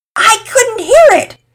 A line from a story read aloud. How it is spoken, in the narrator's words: Pearson yelled